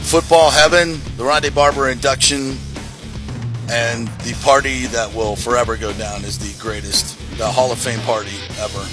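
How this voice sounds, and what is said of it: Strained, partly lost voice. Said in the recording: “I'm back. My voice is not, though.”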